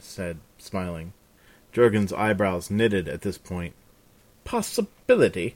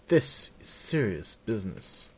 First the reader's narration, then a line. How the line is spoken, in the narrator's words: the Seneschal said solemnly